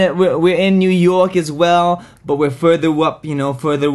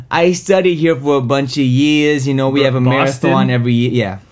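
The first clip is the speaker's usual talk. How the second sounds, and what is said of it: Poor put-on Boston accent. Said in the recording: “That is not a very good Boston accent.”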